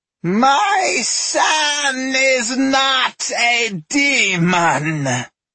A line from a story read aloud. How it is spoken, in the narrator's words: Aijana howled, and her shriek nearly drew blood from the women's ears